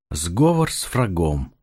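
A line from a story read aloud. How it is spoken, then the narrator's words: Sighing. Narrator (Russian): вздохнул я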